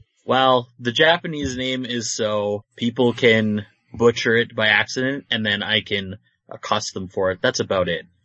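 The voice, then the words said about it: North American accent. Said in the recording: “It's weird to hear you speak in a North American accent”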